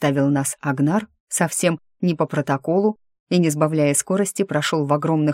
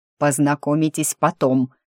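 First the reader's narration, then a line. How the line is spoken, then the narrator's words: Menacing. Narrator (Russian): грозно сообщил он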